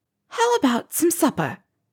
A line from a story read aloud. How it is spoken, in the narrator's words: Hermione said, desperately